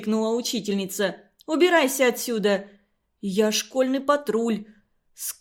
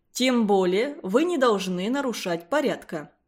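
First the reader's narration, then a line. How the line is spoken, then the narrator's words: Calm. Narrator (Russian): спокойно сказал директор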